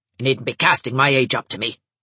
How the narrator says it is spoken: snapped Mrs

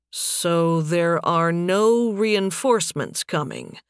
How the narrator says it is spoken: Nathan said slowly

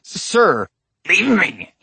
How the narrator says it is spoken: he snarled

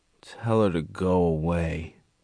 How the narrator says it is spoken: Gerald mumbled from under the pillow

